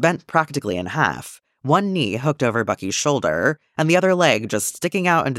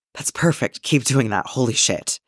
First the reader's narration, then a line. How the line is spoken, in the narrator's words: His ass reaches its limit before Bucky's dick does, and Clint gasps out